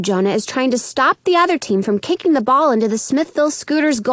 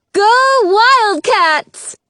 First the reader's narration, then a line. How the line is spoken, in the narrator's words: lady shouts through a megaphone